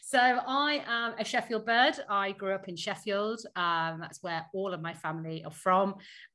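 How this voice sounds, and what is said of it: Northern English accent. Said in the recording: “northern bird ... my northern accent”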